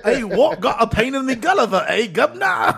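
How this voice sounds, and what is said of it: Put-on British accent. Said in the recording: “British accents”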